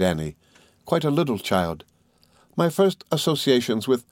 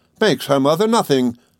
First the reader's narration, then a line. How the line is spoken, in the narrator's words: exclaimed Mrs